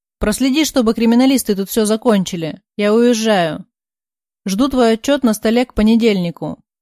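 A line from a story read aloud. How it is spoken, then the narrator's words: Boss growling. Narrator (Russian): прорычал босс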